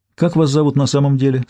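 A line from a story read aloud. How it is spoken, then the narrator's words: Plain. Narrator (Russian): спросил Гектор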